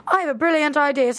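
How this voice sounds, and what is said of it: Put-on British accent. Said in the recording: “I'm going to do Serena with a British accent right now ... An English accent.”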